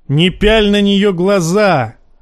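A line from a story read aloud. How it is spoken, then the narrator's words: Barking shout. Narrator (Russian): гаркнул Джейме кузену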